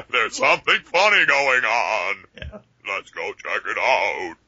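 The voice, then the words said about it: Imitates dubbed monster-movie dialogue. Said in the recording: “my best impersonation of how they spoke”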